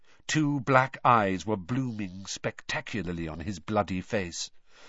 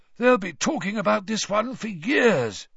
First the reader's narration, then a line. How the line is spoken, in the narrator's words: he said hoarsely